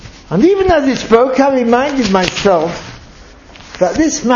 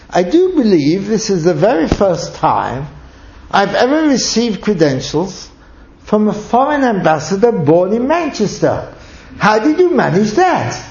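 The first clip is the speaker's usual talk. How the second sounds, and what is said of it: Somewhat mystified voice. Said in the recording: “in a somewhat mystified voice”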